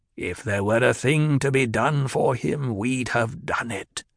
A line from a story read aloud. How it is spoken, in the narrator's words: the old woman growled